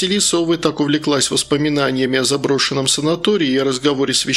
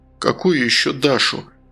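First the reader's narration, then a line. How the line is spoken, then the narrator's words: Gloomy father's question. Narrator (Russian): мрачно спросил отец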